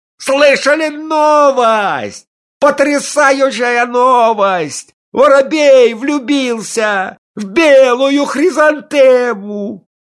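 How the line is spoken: Continuous shouting. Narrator (Russian): он все кричал

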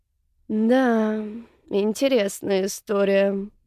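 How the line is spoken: Sighing. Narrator (Russian): вздохнул Седов

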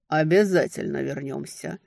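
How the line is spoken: Grim promise. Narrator (Russian): мрачно пообещал Ледяной

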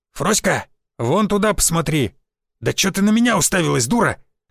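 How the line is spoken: Barked. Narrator (Russian): рявкнул Константин Львович

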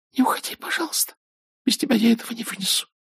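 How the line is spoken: Pleading whisper. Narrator (Russian): Мелани взмолилась шепотом

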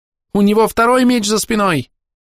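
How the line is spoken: Youthful squeal. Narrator (Russian): взвизгнул юношеский голос

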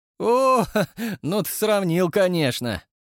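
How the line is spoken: Amused chuckle. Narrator (Russian): весело хмыкнул брат

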